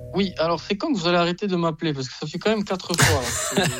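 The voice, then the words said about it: Corsican French accent. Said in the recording (French): “On entend quand même votre accent là. Il n'est pas inventé... Vous êtes Corse... C'est un vrai accent.”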